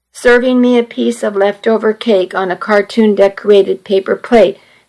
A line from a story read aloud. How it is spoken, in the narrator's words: Daniel said